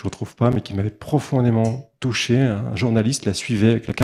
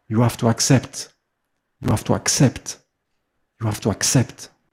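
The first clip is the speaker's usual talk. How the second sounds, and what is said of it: Imitating Mother Teresa's accent. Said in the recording (French): “Avec son accent de Mère Teresa.”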